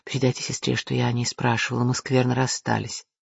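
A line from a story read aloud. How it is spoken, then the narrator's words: Whisper in ear. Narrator (Russian): шепнуть ему на ухо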